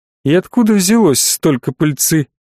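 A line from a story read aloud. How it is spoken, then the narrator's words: Silky menacing question. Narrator (Russian): вкрадчиво с угрожающими нотками спросил Бренников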